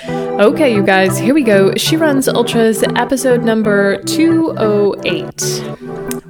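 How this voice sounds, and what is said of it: Slightly sick, flu-affected voice. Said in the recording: “I got the flu. Perhaps you can still hear it in my voice. I'm just slightly sick still”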